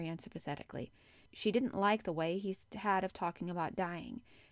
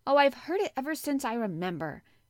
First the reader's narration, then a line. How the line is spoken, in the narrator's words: he answered crossly